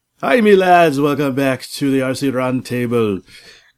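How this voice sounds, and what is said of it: Attempted Scottish accent sounding Jamaican. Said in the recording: “He went Jamaican. ... it's the closest I can get to the ... Scotland, Scotland Jamaica. Accent.”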